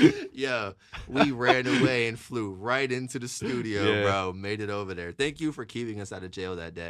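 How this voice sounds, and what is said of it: Usual voice. Nothing is said of it.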